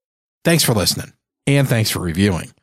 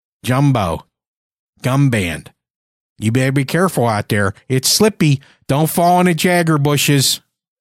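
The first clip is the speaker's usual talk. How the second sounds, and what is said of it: Western Pennsylvania Yinzer accent. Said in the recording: “a hint of that Western PA Yinzer accent”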